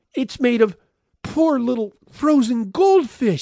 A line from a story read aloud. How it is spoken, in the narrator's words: cried